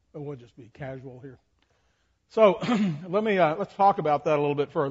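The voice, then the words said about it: Raspy voice. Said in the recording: “I'm a little all of a sudden raspy here. Somebody made me talk all afternoon.”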